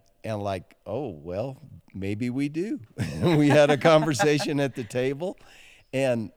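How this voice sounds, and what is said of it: Usual voice. Nothing is said of it.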